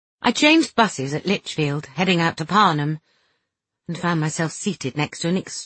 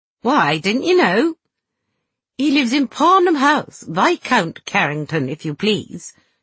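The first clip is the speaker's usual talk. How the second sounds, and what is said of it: Put-on posh accent. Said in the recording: “putting on a posh accent”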